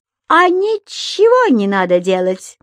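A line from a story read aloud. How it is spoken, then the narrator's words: Very loud speech. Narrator (Russian): проговорил он так громко, что на этот раз даже Понеделькус расслышал каждое слово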